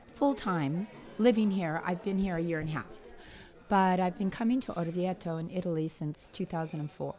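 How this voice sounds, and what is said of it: Slightly hoarse, throaty voice. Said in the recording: “I have a little frog in my throat.”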